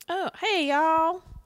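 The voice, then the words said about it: Put-on Texas accent. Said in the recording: “I expect her to have a Texas accent.”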